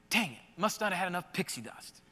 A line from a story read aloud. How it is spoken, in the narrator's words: he heard his son whisper as he walks away